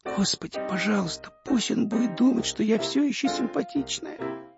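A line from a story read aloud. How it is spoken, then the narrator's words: Whispered prayer. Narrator (Russian): теперь она шептала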